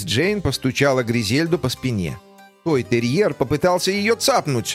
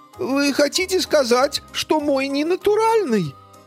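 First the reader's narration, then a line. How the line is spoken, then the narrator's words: Sobbing. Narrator (Russian): Гризельда зарыдала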